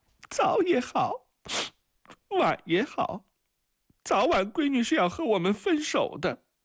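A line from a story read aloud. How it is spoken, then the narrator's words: Woman's half-feigned sobbing. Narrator (Chinese): 女主人半真半假地抽泣起来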